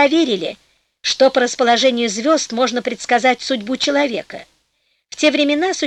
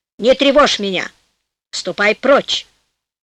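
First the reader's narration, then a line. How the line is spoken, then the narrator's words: Calm reply, old man. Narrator (Russian): Старик спокойно ответил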